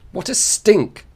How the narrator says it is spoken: the girl cried suddenly

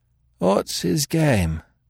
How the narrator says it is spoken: repeated Marks drowsily

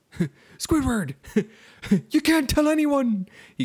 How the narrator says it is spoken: he called out

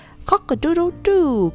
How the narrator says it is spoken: crowed Pink Whistle at the top of his voice

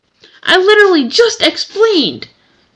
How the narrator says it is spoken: exclaimed Pandy

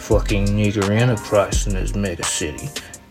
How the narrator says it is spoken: Duke muttered

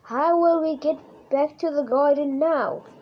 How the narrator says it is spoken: Rosa cried

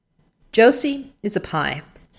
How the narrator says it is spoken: said Marilla sharply

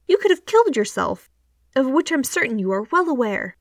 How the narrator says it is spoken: she says crossly

